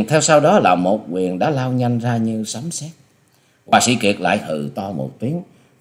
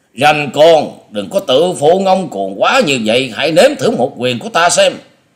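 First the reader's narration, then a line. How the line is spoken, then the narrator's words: Furious roar. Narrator (Vietnamese): Lão thầy Lôi Điểu Nhiếp Hồn trợn mắt gầm lên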